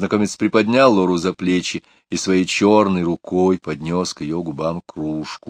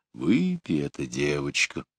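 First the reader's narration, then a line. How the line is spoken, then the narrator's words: Deep low quiet voice. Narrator (Russian): густой, низкий голос тихо сказал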